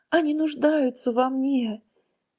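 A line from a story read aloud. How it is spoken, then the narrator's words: Sobbing female prayer. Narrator (Russian): Ее молитва сменилась рыданиями, сотрясающими все ее тело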